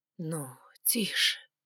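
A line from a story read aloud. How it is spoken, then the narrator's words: Whisper. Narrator (Russian): шептал он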